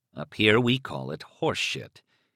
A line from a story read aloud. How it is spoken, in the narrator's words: he muttered